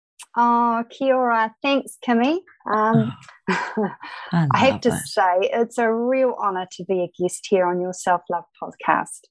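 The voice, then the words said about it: New Zealand Kiwi accent. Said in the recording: “I'm sure our listener can hear that Kiwi twang”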